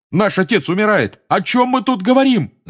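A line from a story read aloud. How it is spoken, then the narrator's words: Yelled. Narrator (Russian): заорал Джордж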